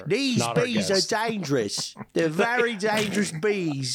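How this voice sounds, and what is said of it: Imitates another person's voice. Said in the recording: “that both of your impersonation is him like in the hurry sundown mode”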